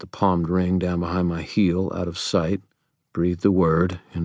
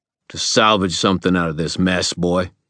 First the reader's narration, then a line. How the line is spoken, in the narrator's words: he snapped